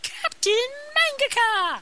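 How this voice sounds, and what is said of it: Magical girl anime voice. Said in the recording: “We have to do it in a magical girl voice.”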